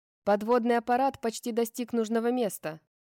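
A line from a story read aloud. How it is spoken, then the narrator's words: Shouted. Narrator (Russian): крикнула капитан-оборотень Дельфин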